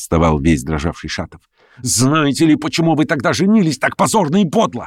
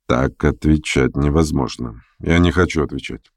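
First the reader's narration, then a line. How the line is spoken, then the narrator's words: Muttering. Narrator (Russian): пробормотал Ставрогин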